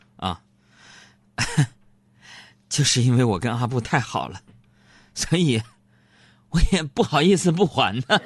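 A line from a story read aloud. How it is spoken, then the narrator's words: Shy laugh. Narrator (Chinese): 小爱腼腆的就笑了笑说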